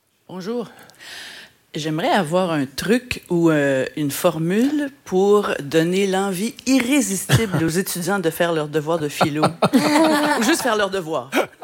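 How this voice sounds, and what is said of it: Quebec French accent. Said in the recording (French): “Petit accent québécois peut-être?”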